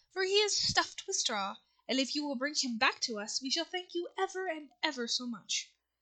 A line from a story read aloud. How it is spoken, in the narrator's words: said Dorothy eagerly